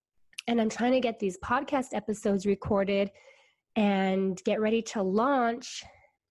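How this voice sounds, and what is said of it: Sick, congested voice from a cold. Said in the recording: “you can probably hear in my voice that I'm a little bit sick ... this cold is affecting my confidence ... sounding like this”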